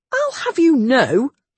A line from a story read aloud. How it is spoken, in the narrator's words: Chase said indignantly